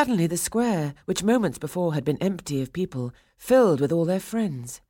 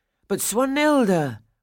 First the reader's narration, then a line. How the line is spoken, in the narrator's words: Franz cried